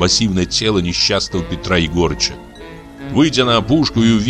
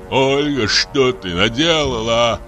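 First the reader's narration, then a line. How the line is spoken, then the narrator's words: Moaning. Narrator (Russian): простонал он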